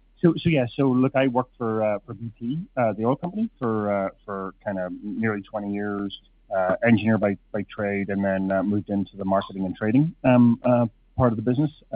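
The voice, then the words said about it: Irish accent. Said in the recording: “as you may hear from my accent, I'm actually not from Canada, originally from Ireland”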